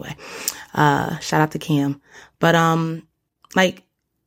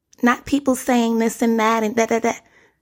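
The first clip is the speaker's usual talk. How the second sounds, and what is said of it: Imitates another person's voice. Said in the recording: “I swear I have the best impersonation. That was my Nicki Minaj impersonation.”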